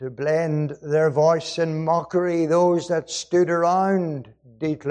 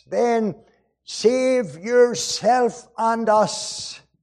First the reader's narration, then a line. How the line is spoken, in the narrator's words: cried the thief on the cross